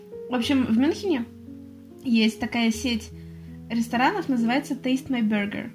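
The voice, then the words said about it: English spoken with Russian accent. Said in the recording (Russian): “прекрасный английский с русским акцентом. Шикарный, конечно.”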